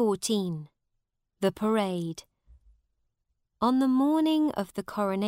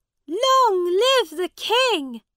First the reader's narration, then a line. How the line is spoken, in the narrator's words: they shouted